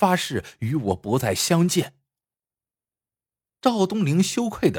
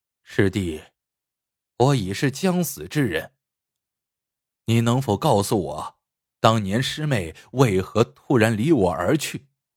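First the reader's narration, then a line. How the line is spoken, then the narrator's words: Calm, detached. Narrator (Chinese): 孟希婷淡淡的说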